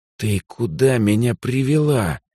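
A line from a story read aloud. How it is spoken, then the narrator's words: Hiss into ear. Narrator (Russian): прошипел я на ухо негритянке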